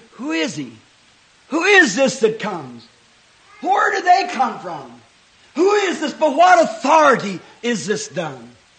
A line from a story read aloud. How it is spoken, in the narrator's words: they still scream